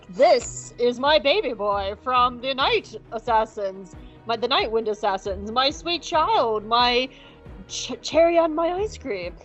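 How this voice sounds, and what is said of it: Attempted impression of an actor's voice. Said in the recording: “I wish I could do a Matt Berry impression. I cannot. ... close enough to doing a Laszlo impression from What We Do in the Shadows. I just cannot do a Matt Berry impression at all.”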